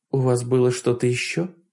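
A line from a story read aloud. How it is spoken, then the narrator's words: Soft inquiry. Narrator (Russian): мягко поинтересовалась Хонор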